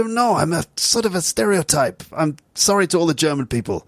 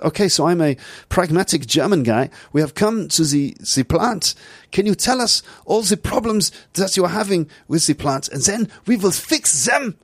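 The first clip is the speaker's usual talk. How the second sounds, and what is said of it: Put-on German accent. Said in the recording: “this is my German accent.”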